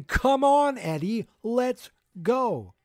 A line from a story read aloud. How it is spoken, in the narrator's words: Dustin is screaming